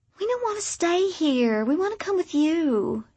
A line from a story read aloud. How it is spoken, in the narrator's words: she whined